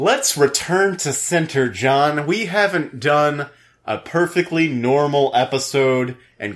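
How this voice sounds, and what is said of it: Usual voice. Nothing is said of it.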